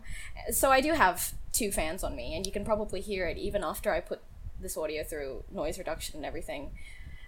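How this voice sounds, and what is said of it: Australian accent. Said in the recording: “I don't know if you can tell by my accent or anything, but I am Australian”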